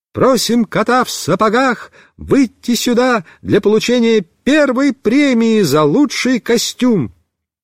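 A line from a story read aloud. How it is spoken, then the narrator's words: Ringing voice. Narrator (Russian): наша вожатая Люся сказала звонким голосом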